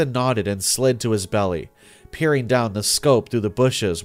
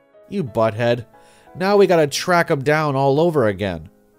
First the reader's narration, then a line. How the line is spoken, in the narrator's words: I yelled